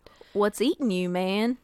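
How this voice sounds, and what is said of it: Put-on Southern American accent. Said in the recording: “I don't know why everybody's southern accent today.”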